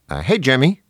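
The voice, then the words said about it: Mild New Jersey accent. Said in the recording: “he has a mild Jersey accent. He kind of sounds like this.”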